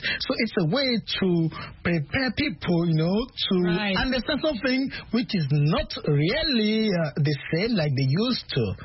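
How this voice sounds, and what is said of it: French accent. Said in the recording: “French-speaking one ... a very nice accent, French accent”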